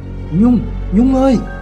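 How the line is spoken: Panicked calling. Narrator (Vietnamese): bố gọi với giọng hốt hoảng

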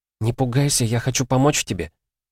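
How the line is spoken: Whisper. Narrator (Russian): прошептала

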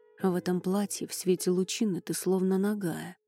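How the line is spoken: Distracted mutter. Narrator (Russian): пробормотал викинг, сбившись с мысли

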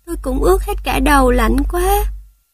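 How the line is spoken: Shivering small voice. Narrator (Vietnamese): Thỏ con run rẩy

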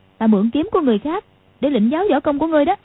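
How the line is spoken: Angry. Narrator (Vietnamese): Quách Phù tức giận nói

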